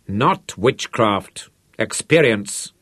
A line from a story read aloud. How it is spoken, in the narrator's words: Rod snapped angrily